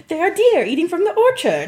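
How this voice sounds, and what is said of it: Poor attempt at English accent. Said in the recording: “my poor attempts at an English accent.”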